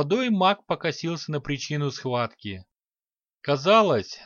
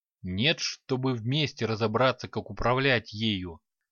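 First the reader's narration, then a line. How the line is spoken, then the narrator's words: Angry grumble. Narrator (Russian): Зло пробурчал Токар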